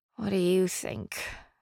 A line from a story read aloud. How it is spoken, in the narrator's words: I grumbled